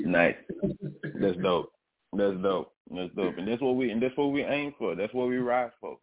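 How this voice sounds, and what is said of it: Panamanian-influenced accent. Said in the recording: “where the accent comes from, it comes from my dad. ... My dad is Panamanian. I'm half Panamanian.”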